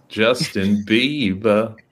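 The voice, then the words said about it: Bad put-on British accent. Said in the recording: “saying it like with a bad British accent ... it almost sounds like you're trying to do like Austin Powers impression”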